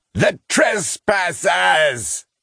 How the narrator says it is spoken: he roared

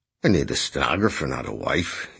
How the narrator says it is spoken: he grumbled

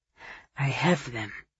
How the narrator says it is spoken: Mario said softly

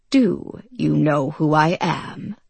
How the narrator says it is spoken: He had a deep voice, almost croaking, and knew he sounded intimidating

